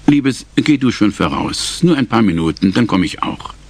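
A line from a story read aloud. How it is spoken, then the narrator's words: Gentle. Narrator (German): Zu Marty sagte er sanft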